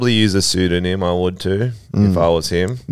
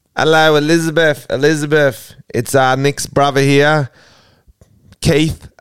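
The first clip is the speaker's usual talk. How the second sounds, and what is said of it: Put-on English accent. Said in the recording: “pre-record a little message in English accent”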